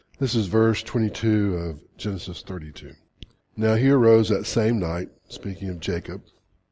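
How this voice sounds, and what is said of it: Voice softer than normal. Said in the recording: “my voice is a little softer than normal from yakking all weekend”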